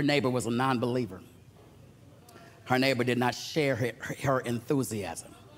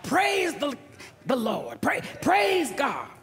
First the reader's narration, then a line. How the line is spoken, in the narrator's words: shout